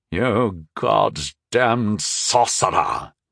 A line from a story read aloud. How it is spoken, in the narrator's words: he spat